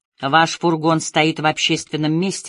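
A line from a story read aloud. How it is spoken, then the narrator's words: Said dryly. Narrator (Russian): сухо сказала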